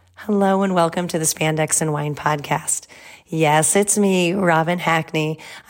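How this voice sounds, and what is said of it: Slightly off, under-the-weather voice. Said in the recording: “I'm a little under the weather, so my voice is a bit off”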